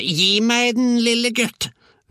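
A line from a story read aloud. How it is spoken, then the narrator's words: Grandmother bellowing. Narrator (Norwegian): vrælte bestemor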